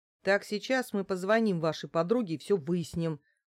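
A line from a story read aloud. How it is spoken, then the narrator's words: Guard grumbling. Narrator (Russian): проворчал охранник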